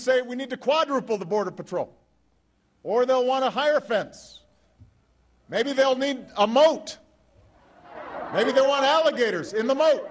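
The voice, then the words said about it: Impression of John Boehner. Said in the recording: “that was a very good Boehner impersonation”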